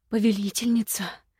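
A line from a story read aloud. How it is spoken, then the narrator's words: Breathy whisper. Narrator (Russian): с придыханием прошептал один из гаремников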